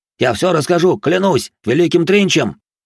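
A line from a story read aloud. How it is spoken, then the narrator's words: Loud. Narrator (Russian): громко произнес он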